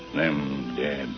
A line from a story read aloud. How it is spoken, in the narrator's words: he muttered softly